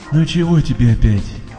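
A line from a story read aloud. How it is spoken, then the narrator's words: Sleepy mumble. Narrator (Russian): Сонно бормочет Солка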